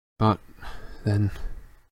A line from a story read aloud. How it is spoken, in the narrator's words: Lupin muttered